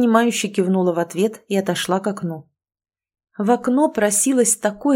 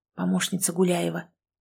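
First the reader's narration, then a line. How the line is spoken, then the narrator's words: Barely audible whisper. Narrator (Russian): прошептал мне еле слышно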